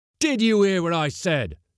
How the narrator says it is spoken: thundered the skipper as the men hesitated

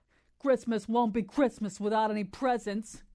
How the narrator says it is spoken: grumbled Joe

